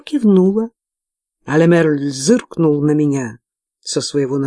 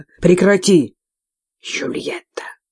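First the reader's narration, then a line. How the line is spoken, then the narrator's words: Hissing. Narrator (Russian): зашипел Лемерль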